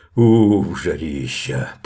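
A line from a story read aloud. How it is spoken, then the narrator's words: Deep bass voice. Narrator (Russian): пробасил Мишка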